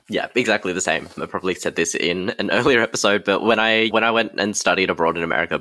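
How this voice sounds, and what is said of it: Australian accent. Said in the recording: “My Australian accent got broader when I was surrounded by Americans”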